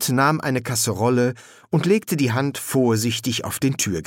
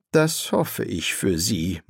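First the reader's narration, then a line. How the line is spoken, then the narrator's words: Low murmur. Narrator (German): murmelte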